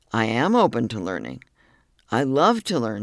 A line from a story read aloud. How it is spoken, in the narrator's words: she said